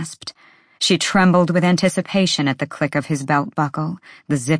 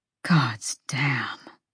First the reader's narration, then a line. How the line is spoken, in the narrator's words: Hunt breathed